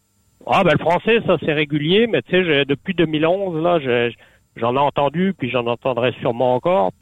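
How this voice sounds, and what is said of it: European French accent. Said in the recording (French): “je suis originaire de l'Europe. J'ai toujours mon accent. Ça fait depuis 2011, je, vis au Canada, mais toujours mon accent”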